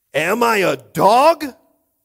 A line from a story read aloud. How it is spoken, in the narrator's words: He roared at David